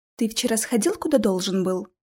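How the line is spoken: Whisper in ear. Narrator (Russian): шепнула мне на ухо Алиса

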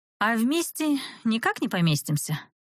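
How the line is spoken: Tired question. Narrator (Russian): устало поинтересовалась

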